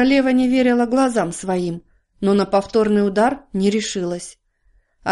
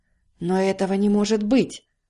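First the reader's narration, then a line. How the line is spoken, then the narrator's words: Whisper. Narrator (Russian): прошептала королева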